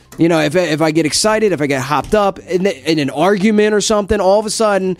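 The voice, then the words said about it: New Jersey accent. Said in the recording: “This is not a made-up accent. This is not a phony accent. ... the Jersey just comes right out of me”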